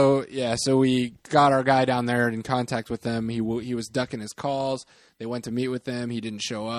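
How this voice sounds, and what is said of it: Usual voice. Nothing is said of it.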